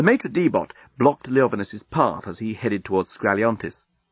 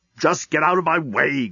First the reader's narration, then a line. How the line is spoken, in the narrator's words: growled Leovinus